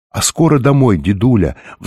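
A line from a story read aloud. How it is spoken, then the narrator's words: Pleading. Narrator (Russian): взмолилась Софи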